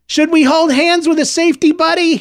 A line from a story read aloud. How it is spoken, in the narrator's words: he shouted over the crowd